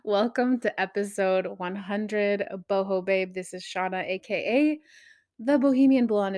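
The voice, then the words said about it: Tired, worn-out voice. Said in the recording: “Do I even have a voice right now? ... I sound a little tired, I am.”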